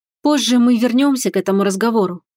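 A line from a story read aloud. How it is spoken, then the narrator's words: Weary sigh. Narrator (Russian): вздохнула устало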